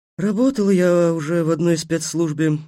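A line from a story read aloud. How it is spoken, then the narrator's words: Witch, gloomy. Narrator (Russian): мрачно сказала ведьма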